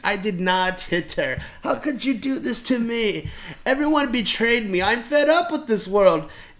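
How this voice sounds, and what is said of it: Bad Tommy Wiseau impression. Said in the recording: “terrible Tommy Wiseau impersonation”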